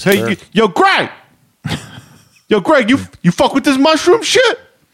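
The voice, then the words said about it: Imitates inner-city Oakland accent. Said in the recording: “grew up in the inner city of Oakland. ... spoke with a very specific accent”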